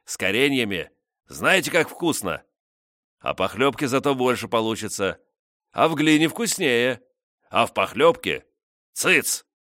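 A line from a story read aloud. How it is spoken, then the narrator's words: Snorting. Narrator (Russian): хмыкнул Велимудр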